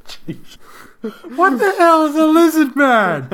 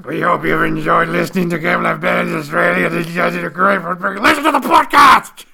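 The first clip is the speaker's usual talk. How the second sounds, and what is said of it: Put-on lizard man character voice. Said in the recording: “in my lizard man voice”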